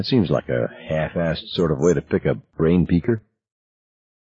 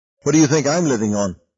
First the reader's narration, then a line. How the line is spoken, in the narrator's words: asked sharply